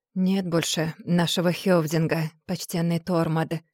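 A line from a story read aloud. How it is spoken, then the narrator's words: Hoarse voice. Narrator (Russian): хрипло проговорил Сигурд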